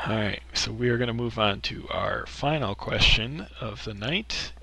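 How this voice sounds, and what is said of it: Strained, partly lost voice. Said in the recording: “I'm partially losing my voice, and I will probably lose it completely”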